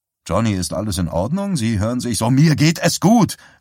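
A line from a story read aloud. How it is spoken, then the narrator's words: Shouting. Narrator (German): schrie Johnny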